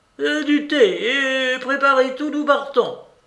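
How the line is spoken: Shouting. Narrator (French): elle cria

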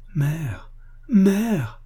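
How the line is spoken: Choked male cry. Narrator (French): cria-t-il d'une voix étranglée

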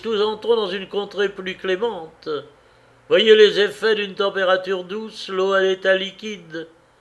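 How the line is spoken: Journalist exclaiming. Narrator (French): s'écria le journaliste

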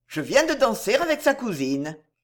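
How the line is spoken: Satisfied tone. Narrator (French): répondit Robert d'un ton satisfait

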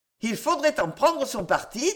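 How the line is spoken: Plain. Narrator (French): dit Madame Lelioran

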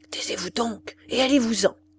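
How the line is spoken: Woman speaking low. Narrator (French): lui dit tout bas la bonne femme

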